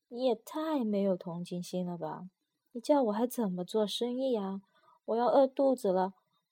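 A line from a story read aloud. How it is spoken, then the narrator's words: Hoarse, sorrowful voice. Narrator (Chinese): 陈王朝的人在外面用嘶哑的声音悲哀地说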